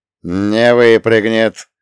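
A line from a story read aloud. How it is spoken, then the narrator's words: Strained, through gritted teeth. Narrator (Russian): сквозь зубы процедил я, чувствуя, как горят мои собственные трицепсы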